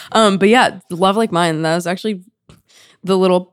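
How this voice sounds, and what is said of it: Hoarse voice. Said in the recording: “my voice is like so hoarse today”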